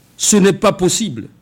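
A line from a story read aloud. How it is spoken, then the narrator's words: Frightened doctor exclaiming. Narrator (French): Le médecin effrayé s'écria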